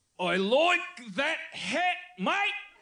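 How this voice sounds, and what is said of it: Put-on Australian accent. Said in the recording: “my Australian accent, and it's a very difficult accent”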